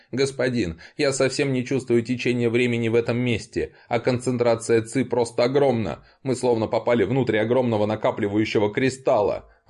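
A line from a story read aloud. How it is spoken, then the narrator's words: Joyful announcement. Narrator (Russian): радостно сообщил получивший возможность говорить Мо Шэнь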